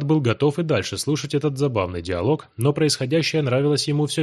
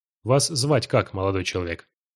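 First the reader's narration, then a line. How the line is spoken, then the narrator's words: Calm, unpanicked question. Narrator (Russian): Неожиданно поинтересовался Давид спокойным прежним голосом, без тени паники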